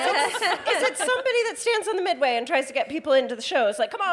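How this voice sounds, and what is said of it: Usual voice. Nothing is said of it.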